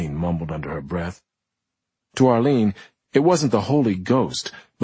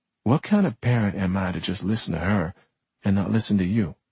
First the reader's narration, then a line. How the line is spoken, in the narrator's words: She said, softly